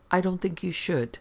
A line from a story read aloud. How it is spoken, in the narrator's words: For a while the man did not answer, then he said quietly